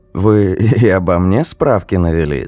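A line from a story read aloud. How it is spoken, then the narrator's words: Laughing. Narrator (Russian): засмеялась Галина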